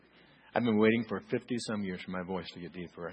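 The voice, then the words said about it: Deeper, flu-affected voice. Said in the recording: “Have you noticed my voice is deeper? ... And finally got the flu, and now it's deeper.”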